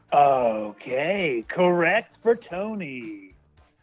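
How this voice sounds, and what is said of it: Game show announcer voice. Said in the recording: “I like your little announcer voice.”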